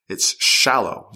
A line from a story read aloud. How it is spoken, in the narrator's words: Zarda snapped